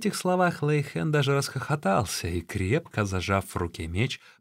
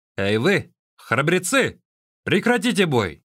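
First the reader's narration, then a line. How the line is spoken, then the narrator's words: Shouted. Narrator (Russian): крикнул он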